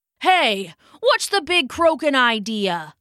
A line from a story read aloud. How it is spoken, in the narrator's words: he shouted